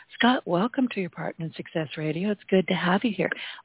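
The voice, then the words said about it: Hoarse, strained voice. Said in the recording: “<clears throat> Excuse me, and I'm losing my voice”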